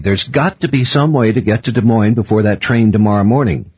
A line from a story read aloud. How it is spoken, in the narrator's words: I said sharply